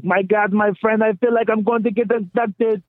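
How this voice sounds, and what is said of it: Imitates another person's voice. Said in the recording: “great impression”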